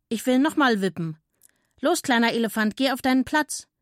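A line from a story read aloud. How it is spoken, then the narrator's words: Call. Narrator (German): rief der Affe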